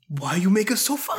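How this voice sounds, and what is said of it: Antonio Banderas impression. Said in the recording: “do an Antonio Banderas impression”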